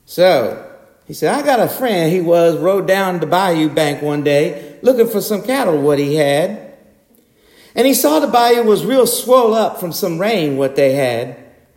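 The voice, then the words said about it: Put-on Cajun accent. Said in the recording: “I'm going to try to do it in the Cajun accent of Justin Wilson, of which I am no expert, but I'm going to try.”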